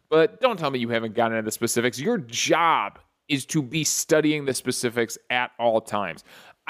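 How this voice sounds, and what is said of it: Angry ranting tone. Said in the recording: “I know I'm ranting here. I know I sound really angry”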